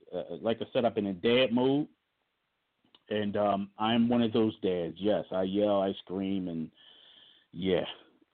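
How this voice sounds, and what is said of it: Hoarse, strained voice. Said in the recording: “I'm losing my voice. ... So I'm kind of hoarse.”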